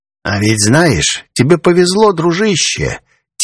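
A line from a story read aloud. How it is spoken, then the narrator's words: Quiet, unusually calm drawl. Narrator (Russian): Тихо и непривычно спокойно протянул делец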